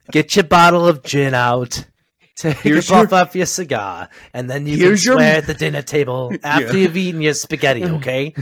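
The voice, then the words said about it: Put-on accent. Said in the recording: “I don't know why I put that accent for that”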